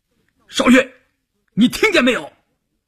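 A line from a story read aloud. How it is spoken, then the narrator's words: Shouted. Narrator (Chinese): 关山林喊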